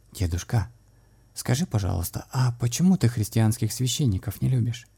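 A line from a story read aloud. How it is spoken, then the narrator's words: Boy's quiet question. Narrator (Russian): тихо спросил старший из отроков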